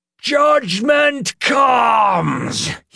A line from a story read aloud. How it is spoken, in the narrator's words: He screamed